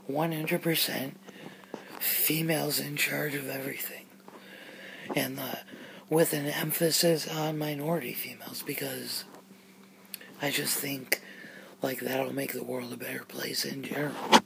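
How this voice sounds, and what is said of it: Strained, fading hoarse voice. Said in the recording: “I gotta get a drink of water and start over, because I'm totally losing my voice here for this intro.”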